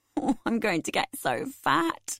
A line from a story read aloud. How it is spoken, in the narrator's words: I said laughingly